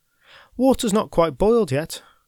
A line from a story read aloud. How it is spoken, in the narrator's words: called out Kate